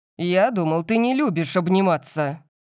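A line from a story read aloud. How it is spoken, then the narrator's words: Exasperated growl. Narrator (Russian): Прорычал он, когда больше не смог этого выносить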